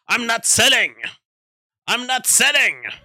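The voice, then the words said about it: Imitates a film character, shouting. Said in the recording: “I was imitating the guy in The Wolf of Wall Street.”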